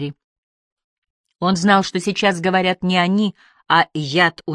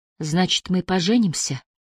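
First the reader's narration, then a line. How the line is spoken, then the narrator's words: Tearful whisper. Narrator (Russian): прошептала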